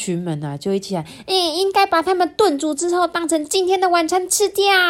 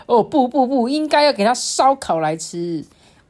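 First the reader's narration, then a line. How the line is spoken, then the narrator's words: Angry roar. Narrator (Chinese): 秋刀鱼就怒吼说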